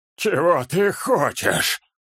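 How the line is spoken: Near moan. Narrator (Russian): Почти простонал вдруг знакомый голос

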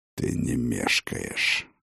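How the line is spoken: Old man's muttering. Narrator (Russian): бормотание старого Хрофта

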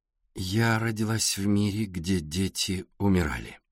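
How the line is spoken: Slow. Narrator (Russian): медленно сказала Александра

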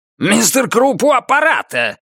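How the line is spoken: Barked. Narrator (Russian): рявкнул Круп

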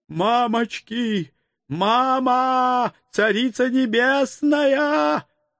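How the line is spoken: Bear's howl. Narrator (Russian): Взвыл медведь

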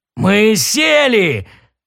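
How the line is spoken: Joyful roar. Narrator (Russian): радостно взревел Дрил

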